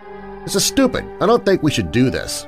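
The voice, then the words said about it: Shaky, frightened voice. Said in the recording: “said Lena in a shaky voice.”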